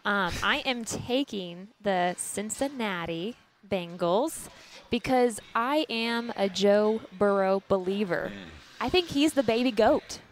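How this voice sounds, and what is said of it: Texas accent. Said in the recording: “That accent? ... She took over that Texas accent. ... She's fully adopted.”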